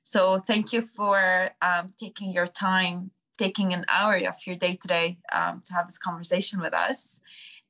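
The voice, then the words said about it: Weak, strained fading voice. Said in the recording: “my voice is dying. It's so unusual of me, because I'm always like so loud.”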